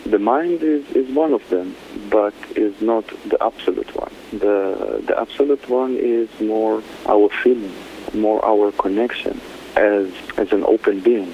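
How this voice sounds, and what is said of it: Israeli-accented English. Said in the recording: “this beautiful accent ... I adore it. ... Originally, I'm from Israel.”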